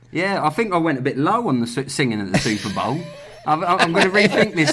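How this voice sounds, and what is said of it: Working-class British accent. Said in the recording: “in the UK my accent is really, really. The lowest class people, the way I speak”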